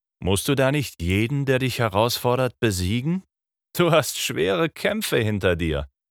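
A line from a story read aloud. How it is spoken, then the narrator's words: Laughing. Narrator (German): meinte Gawain lachend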